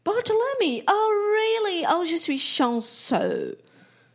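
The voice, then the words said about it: Strong English accent in French. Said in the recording (French): “l'étranger au fort accent anglais”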